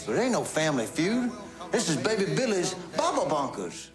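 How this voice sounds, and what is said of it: Uncle Baby Billy's wild accent. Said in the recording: “Walton Goggins plays a crazy character on that show. He plays Uncle Baby Billy. ... wild accent ... over-the-top nutso”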